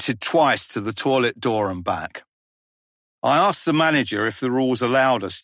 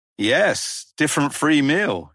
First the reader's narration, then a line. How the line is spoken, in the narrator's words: he answered